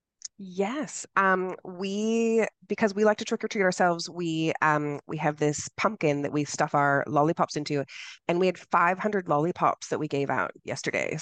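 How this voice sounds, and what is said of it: American accent. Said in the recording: “I'm American, as you can tell by my accent”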